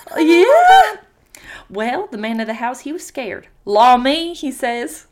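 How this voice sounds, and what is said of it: Put-on accent while storytelling. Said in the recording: “I got lost in the accent.”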